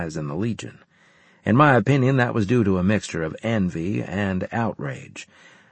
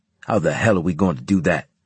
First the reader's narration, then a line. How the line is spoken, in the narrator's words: Harris snapped